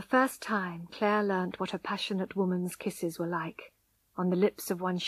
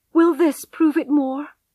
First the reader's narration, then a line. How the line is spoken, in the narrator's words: cried Tess desperately